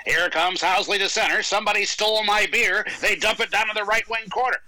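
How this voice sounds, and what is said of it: Imitates a sports announcer's voice. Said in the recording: “I'm going to do an impression of Rick, and I don't do many impressions.”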